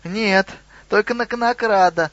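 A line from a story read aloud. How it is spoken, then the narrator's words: Squeaky goblin voice. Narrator (Russian): пропищал гоблин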